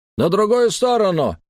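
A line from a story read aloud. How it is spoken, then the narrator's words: Barked shout. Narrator (Russian): гаркнул стражник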